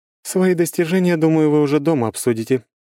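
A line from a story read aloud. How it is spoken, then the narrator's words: Remark over loud laughter. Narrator (Russian): заметила Круанна, перекрывая дружный взрыв громкого хохота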